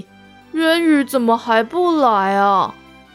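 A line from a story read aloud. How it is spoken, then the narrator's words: Sighing. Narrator (Chinese): 丹影叹了口气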